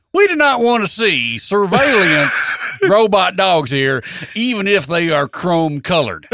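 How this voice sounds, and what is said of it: Exaggerated hillbilly character voice. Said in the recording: “do my hillbilly voice? ... Do your hillbilly voice.”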